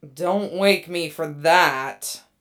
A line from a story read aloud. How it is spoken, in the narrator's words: the first mate groans